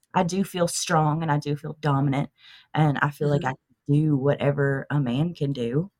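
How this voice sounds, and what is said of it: Southern US accent. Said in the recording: “your accent ... I am from the deep South ... born and bred in Tennessee”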